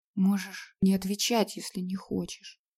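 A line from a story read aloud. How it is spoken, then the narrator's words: Very quiet. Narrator (Russian): добавила она совсем тихо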